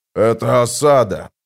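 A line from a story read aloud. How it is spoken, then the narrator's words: Growled. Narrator (Russian): прорычал Брухалиан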